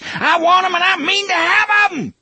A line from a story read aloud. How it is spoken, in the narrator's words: TikTok screamed into Jake's face